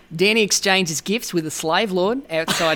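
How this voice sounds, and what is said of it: Put-on Australian accent. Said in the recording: “a little Australian ... my Australian accent”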